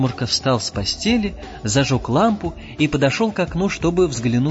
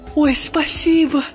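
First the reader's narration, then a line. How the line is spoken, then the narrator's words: Little star exclaiming. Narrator (Russian): воскликнула звездочка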